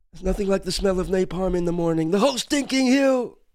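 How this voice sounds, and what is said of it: Impression of a movie character. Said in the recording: “That's my Robert Duvall. ... That's my Kilgore impression.”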